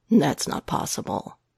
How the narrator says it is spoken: Matt says flatly

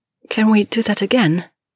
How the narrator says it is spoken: she rasps

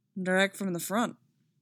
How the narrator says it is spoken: Cody said

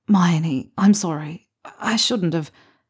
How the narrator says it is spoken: he mutters

